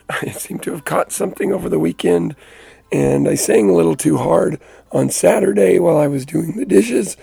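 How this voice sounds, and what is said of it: Hoarse, nearly lost voice. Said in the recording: “as you can hear, my voice is gone ... just took my voice out”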